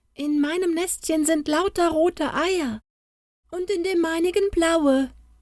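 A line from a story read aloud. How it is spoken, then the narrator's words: Called out. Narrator (German): rief ein anderes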